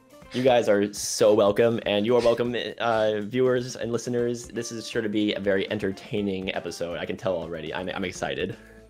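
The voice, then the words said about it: Strained, slightly hoarse voice. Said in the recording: “my voice is giving out a little bit this episode. I'm recovering from a cough, and so I might go a little bit hoarse”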